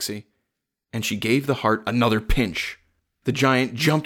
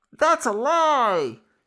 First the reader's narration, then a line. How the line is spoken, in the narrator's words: squeaked a little voice